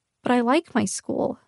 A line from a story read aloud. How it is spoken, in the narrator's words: I whispered, hating how small and pathetic my voice sounded